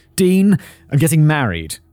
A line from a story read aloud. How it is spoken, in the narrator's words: Wanda said